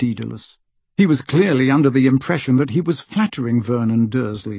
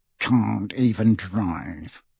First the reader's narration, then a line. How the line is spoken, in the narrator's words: he muttered under his breath, his moustache rippling indignantly